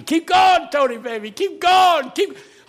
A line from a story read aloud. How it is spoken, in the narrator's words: men were standing up screaming